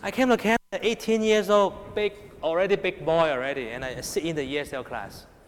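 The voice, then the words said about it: Hong Kong accented English. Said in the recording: “my English is so much Hong Kong accent ... Very terrible English. Hong Kong accent.”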